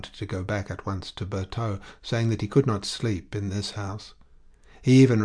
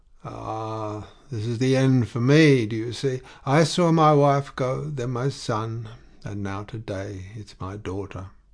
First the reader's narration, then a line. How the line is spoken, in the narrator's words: with a loud groan that shook his whole chest